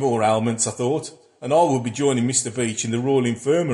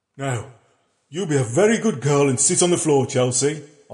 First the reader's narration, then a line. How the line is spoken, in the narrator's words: I said in my jolliest voice